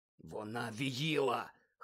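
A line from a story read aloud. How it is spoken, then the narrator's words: Hoarse. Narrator (Ukrainian): хрипко сказав він Гаррі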